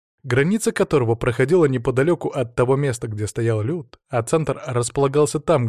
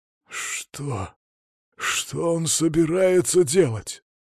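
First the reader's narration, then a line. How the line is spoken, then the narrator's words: Wheezed, hoarse. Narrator (Russian): прохрипел Велизар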